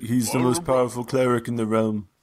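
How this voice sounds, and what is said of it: Put-on character accent. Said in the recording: “I don't know where this accent's going”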